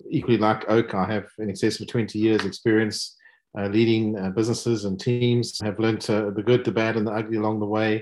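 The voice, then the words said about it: South African accent. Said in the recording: “As you can hear from my accent, um, clearly South African”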